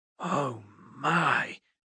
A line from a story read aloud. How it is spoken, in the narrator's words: Horace whispered